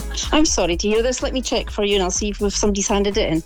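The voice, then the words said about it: Polite customer-service phone voice. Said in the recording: “you do your phone voice”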